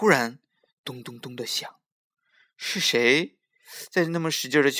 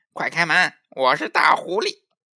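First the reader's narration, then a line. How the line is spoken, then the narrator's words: Loud call from outside. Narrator (Chinese): 狐狸在门外大声叫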